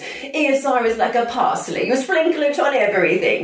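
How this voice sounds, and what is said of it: Bad put-on Italian accent. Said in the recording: “my very bad impression of an Italian accent”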